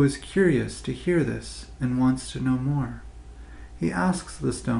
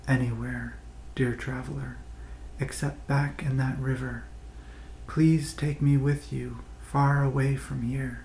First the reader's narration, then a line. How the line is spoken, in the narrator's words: It whispers back to him in a barely audible voice